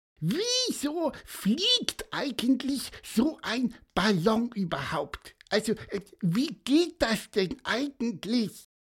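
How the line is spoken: Squeaky voice. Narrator (German): piepste er

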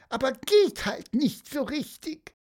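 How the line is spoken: Squeaky voice. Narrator (German): piepste er

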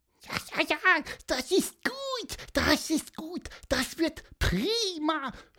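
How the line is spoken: Squeaky voice. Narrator (German): hörte man piepsen

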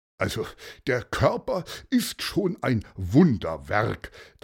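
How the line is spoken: Thinking aloud. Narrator (German): dachte Paulus laut nach

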